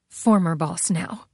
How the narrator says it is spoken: she muttered

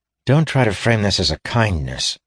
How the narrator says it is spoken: she said irritably

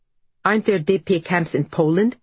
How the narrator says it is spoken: snaps

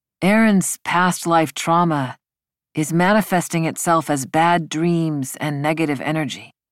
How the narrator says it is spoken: Matsui said

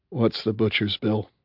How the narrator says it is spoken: Her sigh was long and slow and weary

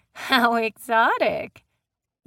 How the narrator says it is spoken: Ryan said with a laugh

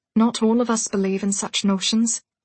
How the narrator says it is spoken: Pippa said softly

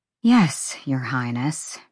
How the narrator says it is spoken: she muttered

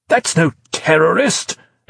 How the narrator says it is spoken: exclaimed Dascombe

